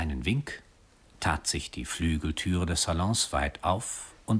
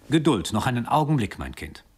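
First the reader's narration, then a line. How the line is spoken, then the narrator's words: Calling out. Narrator (German): rief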